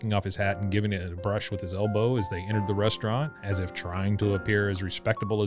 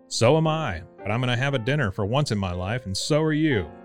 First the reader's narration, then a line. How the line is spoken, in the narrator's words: cried Bert generously